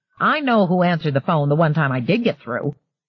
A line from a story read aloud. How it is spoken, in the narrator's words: returned grimly